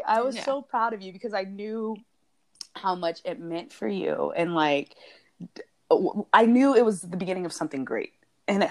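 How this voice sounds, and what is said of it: Teary, shaky emotional voice. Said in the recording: “I'm all getting all teary ... Voice is all shaky”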